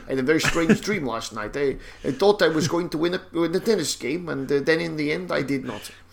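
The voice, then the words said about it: Poor put-on Dutch accent. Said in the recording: “That's a terrible Dutch accent.”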